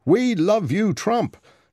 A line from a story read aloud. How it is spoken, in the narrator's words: He shouted it over and over again